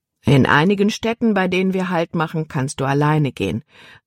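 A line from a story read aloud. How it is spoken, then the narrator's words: Plain. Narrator (German): antwortete ihr Vater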